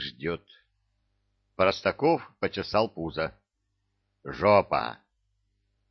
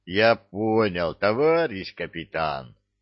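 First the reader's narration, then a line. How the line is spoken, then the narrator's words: Deep bass. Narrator (Russian): басил Леха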